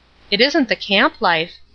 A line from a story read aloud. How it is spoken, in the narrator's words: Ruth said irritably